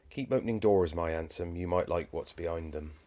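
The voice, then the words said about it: Thick put-on Cornish accent. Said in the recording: “in a very thick Cornish accent ... I love the accent as well.”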